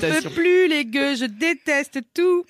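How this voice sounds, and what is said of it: Convincing impression of Marie de Brouwer. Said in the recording (French): “Excellente imitation. ... une imitation à s'y méprendre. ... la même voix, les mêmes expressions, tout est là.”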